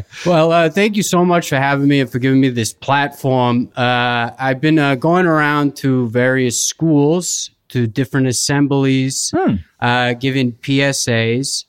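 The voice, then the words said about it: Non-rhotic northeastern US accent. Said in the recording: “I am from an area in the northeastern United States where we do speak with a non-rhotic accent ... We drop the R's at the end unless they precede a vowel”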